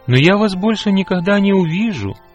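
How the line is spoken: Sorrowful, lonely exclamation. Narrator (Russian): горестно воскликнул Ганс, которого снова начало охватывать чувство одиночества

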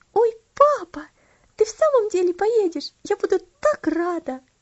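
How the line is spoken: Delighted exclamation. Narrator (Russian): восторженно воскликнула она

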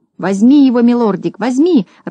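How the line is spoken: Joyful squealing. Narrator (Russian): радостно визжал Клопс

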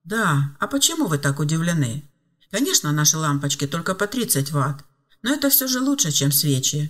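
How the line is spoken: Calm hut owner. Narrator (Russian): спокойно ответил хозяин хижины

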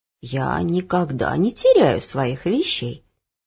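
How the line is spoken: Calm, old woman. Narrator (Russian): спокойно отвечала бабушка

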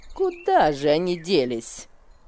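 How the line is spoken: Grumbling. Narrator (Russian): ворчала она

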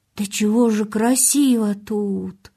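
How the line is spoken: Whispered. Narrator (Russian): прошептал он

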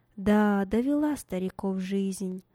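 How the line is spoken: Young man's inner sigh. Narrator (Russian): мысленно вздохнул молодой человек

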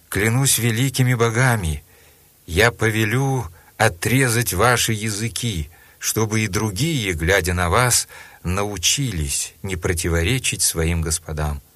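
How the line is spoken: Angry exclamation. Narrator (Russian): Разгневанный мучитель Максимиан воскликнул

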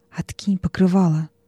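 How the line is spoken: Whisper. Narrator (Russian): она шепнула

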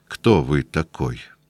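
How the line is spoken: Quiet question. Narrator (Russian): он тихо спросил

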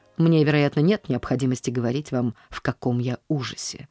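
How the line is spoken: Almost sharp. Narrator (Russian): начал он почти резко

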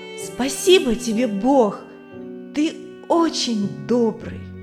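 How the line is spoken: Loud. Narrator (Russian): он тоже громко сказал

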